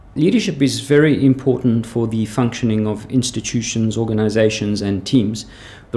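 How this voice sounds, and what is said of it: Slight South African accent. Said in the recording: “as you can probably hear, I have a slight South African accent.”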